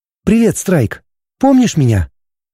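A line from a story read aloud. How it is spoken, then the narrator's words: Clear, beautiful voice. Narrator (Russian): спросила четким и красивым голосом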